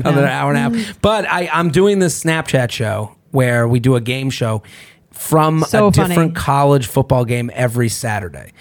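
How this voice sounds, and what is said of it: Worn-out, rough-sounding voice. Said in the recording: “Can you hear my voice right now? My voice is all shit.”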